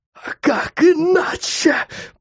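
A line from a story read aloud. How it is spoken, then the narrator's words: Creature's wheezing. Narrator (Russian): просипела тварь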